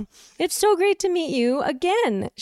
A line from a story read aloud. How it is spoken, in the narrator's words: said, laughing